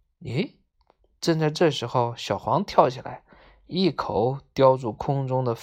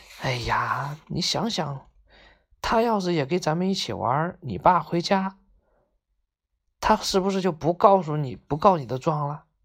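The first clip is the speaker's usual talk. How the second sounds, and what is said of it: Speaking quietly, whispering. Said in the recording (Chinese): “小声说”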